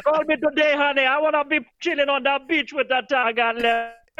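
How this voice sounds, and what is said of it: Fake Jamaican accent impression. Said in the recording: “the Jamaican dude definitely not from Jamaica ... he sounded like Miss Cleo”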